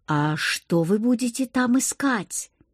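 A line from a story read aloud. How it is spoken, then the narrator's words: Spellbound whisper. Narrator (Russian): прошептала я, зачарованная зрелищем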